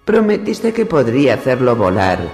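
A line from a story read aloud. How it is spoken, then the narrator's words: Shaking shout. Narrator (Spanish): gritó a su madre entre estremecimientos el señor del nido de águilas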